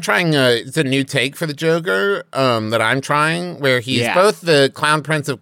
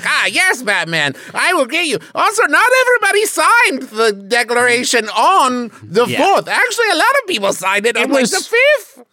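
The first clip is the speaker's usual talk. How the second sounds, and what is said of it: Bad Joker character voice. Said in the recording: “worst Joker impression”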